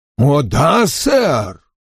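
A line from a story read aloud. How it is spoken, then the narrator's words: Exclaiming eagerly. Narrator (Russian): воскликнул мистер Хонифуд, подозревая, что волшебник рассказывает об одной из своих книг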